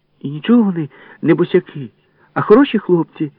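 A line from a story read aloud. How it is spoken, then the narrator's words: Sudden exclamation. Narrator (Ukrainian): вигукнула раптом Валька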